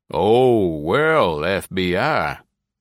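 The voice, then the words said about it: Drawling southern Texas accent. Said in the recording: “The man drawled ... recognized an accent from much further south, probably El Paso.”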